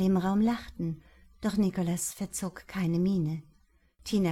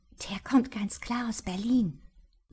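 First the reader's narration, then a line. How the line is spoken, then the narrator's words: Whispering. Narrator (German): wisperte sie mir zu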